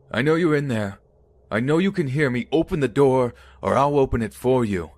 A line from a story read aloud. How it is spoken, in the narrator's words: yelling